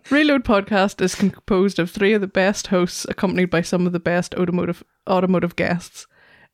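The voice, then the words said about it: Irish accent. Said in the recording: “a seductive Irish accent”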